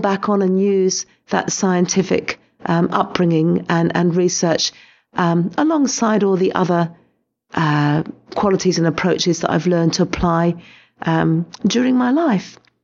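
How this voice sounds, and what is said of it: Crackly, low-energy voice. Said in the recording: “a very crackly voice ... I wasn't really able to put perhaps the emphasis and energy into my voice”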